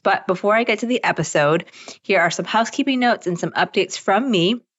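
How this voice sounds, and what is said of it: Slightly weird, throaty voice. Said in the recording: “my voice sounds a little weird right now ... I'm getting over a weird throat thing”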